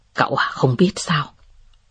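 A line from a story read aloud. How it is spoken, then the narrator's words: Soft laugh. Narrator (Vietnamese): Tưởng Ngọc Hàm ... cười khẽ và nói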